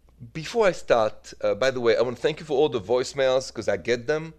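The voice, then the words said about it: French accent from Paris. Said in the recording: “the accent, of course, is from Paris”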